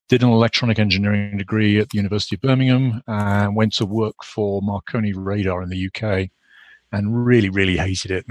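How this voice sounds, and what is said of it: British accent. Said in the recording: “I grew up in the UK, obviously, as you can you can probably gather from my accent”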